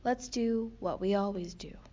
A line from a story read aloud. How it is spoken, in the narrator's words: said Slobby Dog